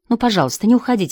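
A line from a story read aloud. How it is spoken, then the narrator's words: Pleading. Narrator (Russian): взмолился Джек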